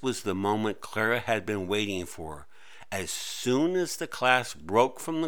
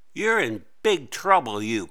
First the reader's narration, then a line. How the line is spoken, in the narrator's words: Clara snapped